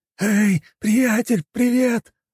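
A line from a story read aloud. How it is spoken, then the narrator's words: Shouting. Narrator (Russian): закричал он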